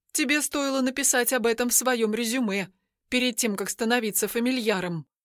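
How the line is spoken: Grumbling mutter. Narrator (Russian): буркнула Ведяна

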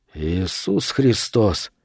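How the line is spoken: Quiet. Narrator (Russian): тихо сказал Вес

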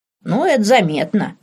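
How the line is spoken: Chuckle, cook. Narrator (Russian): хохотнула кухарка

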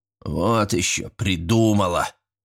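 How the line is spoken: Subdued snort. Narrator (Russian): фыркнул притихший дядь Вася

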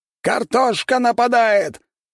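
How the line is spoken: Group shouting. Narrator (Russian): кричали самураи

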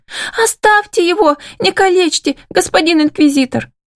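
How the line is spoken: Thin squealing voice. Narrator (Russian): Верещит кто-то тоненьким голоском

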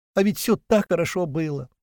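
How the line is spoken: Sobbing. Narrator (Russian): продолжала она всхлипывать

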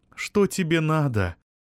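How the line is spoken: Tired question. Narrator (Russian): уставшим голосом спросила Вероника

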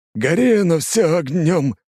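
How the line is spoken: Loud yell. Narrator (Russian): заорал бывший месье Лангранж

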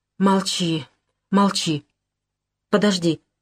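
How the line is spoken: Hoarse, strange voice. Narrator (Russian): Голос стал хриплый, совсем чужой

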